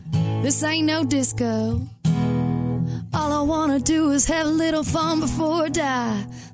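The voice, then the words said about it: Imitates another person's singing voice. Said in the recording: “you can do a good Sheryl Crow impression ... You sound a lot like her there.”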